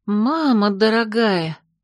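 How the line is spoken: Breathy exclamation. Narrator (Russian): выдохнула я

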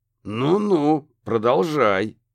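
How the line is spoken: Menacing growl. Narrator (Russian): угрожающе прорычал детектив

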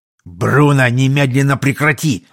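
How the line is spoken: Old warrior barking. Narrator (Russian): рявкнул старый воин

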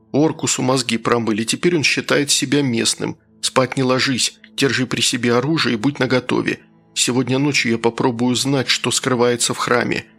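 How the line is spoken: Quiet. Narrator (Russian): тихо сказал я

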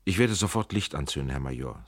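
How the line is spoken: Plain. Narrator (German): sagte Trenk

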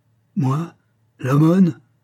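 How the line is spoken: Exasperated exclamation. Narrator (French): s'écria l'homme exaspéré

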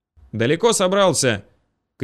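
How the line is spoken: Shouting. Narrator (Russian): крикнул он

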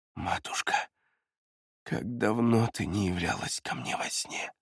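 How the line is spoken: Barely audible whisper. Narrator (Russian): еле слышным шепотом сорвалось

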